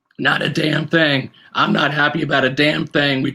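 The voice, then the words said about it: Imitates another person's voice. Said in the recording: “my best impersonation ... of Bruce Arians, which may or may not be good”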